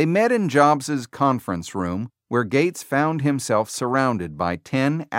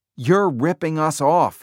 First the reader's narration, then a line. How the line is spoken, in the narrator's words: shouted